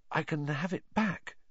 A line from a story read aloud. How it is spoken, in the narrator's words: Harry said weakly